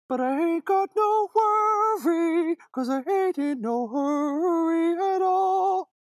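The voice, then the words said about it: Sung impression, light vibrato. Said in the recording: “do an impression... I don't have enough vibrato on it. His is pure vibrato. His is vibrating the entire time.”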